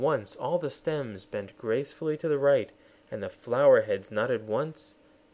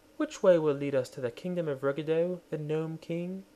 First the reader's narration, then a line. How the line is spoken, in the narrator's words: she said in her sweet, gentle voice